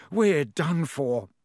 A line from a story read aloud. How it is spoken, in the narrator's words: he moaned